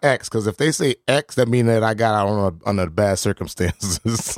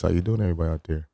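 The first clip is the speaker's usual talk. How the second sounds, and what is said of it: Put-on sexy voice. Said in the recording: “Get my sexy voice.”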